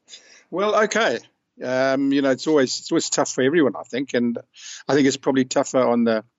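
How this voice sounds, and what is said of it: South African accent. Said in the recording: “a former South African great ... your accent is one of the better accents I've heard ... It's a rich accent”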